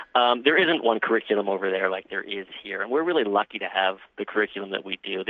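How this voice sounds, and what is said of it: American New York accent. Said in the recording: “you probably talk about my accent. I'm actually originally from over there, from New York”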